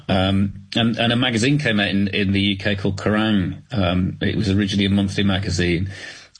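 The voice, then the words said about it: Thick British accent. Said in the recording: “you've obviously got a thick British accent.”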